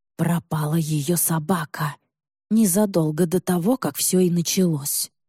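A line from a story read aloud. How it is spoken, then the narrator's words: Old woman whispering. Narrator (Russian): шепотом говорит бабка Нина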